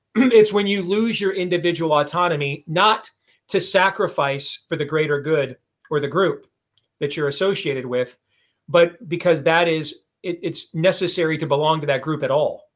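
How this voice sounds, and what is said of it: Worn, strained voice. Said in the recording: “I just got off the air with my own show. My voice is a little worked over”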